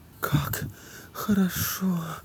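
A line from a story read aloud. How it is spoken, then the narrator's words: Moaning. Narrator (Russian): простонала Женя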